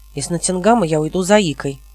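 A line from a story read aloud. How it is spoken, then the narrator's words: Angry announcement. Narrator (Russian): объявил он сердито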